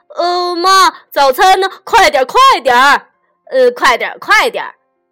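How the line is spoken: Loud shout. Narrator (Chinese): 西蒙和 Park 总是大喊

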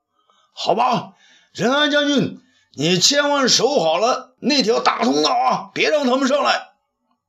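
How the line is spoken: Loud. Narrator (Chinese): 东方朔大声说

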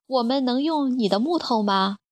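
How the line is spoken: Plain. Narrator (Chinese): 弗罗格问

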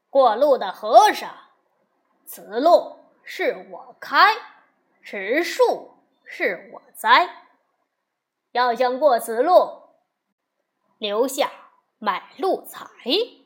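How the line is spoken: Loud bandit roar. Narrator (Chinese): 三十多个土匪 大声吼着

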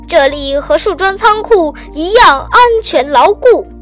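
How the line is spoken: Loud announcement. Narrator (Chinese): 他大声宣布

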